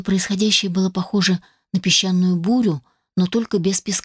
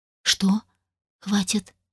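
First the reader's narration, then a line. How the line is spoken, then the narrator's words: Gentle question. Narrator (Russian): мягко спросил Хоторн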